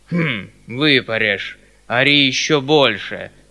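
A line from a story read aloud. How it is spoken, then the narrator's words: Loud grumble. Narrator (Russian): проворчал Гришка будто про себя, но так громко, что все это слышали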